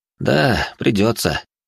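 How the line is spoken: Sighing, young necromancer. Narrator (Russian): вздохнул начинающий некромант

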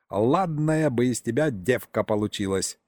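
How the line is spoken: Old man giggling. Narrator (Russian): хихикнул дед

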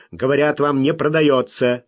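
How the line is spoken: Sharp reply. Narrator (Russian): резко ответил Смок

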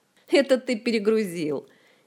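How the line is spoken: Cheerful giggle. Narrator (Russian): хихикнул Жак уже веселее

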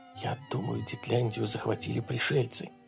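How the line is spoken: Whispered. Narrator (Russian): прошептал Отто

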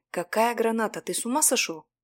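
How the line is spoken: Hiss. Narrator (Russian): прошипел я

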